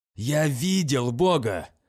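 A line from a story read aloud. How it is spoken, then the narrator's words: Hissed. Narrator (Russian): прошипел Урия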